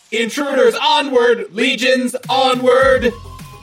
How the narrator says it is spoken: it just again kind of yells out

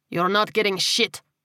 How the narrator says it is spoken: he snapped

